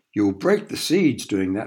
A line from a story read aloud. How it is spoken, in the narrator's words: shouted Georgie